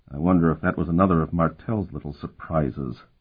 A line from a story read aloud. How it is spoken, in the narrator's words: Sparhawk muttered under his breath